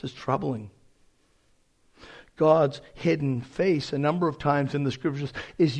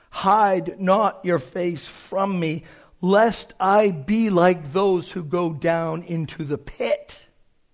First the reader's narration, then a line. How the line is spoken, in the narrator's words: the psalmist pleads